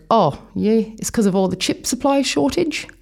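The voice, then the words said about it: Bad imitation of Kiwi accent. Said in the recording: “That was a really bad impersonation of a Kiwi accent.”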